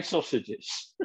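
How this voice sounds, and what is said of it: Deep comedic character voice. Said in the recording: “It sounded like a comedy dog when you did that deep Trevor Feelgood ... Do that voice again”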